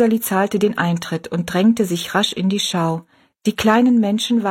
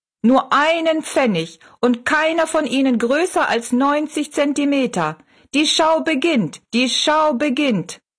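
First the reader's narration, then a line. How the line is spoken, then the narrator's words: Calling out. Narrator (German): rief er Rosalie zu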